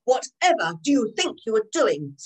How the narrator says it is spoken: said Barclay to Zane crossly

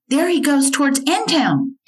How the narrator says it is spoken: Hotchkiss from the upper floor bedroom shouted

